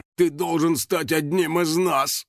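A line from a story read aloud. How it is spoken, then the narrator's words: Sung, velvety and slightly hoarse. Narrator (Russian): запел бархатистым, немного хриплым голосом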